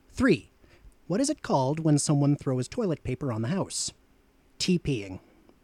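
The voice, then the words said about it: Atlantic Canadian accent. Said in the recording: “Accent Challenge ... Where are you from in the world? Atlantic, Canada.”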